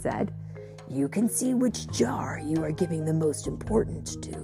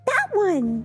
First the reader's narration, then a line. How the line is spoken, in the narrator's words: Layla exclaimed